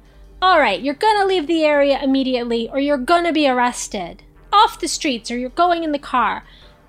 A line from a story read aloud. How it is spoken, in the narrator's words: yelling